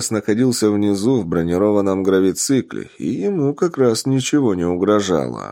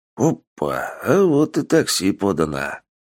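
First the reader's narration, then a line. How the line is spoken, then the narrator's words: Scoffing grumble. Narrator (Russian): Хмыкнув, пробурчал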